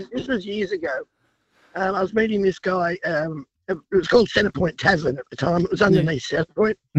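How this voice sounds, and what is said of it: Congested, hoarse voice. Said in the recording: “sorry about the voice. I've got a cold.”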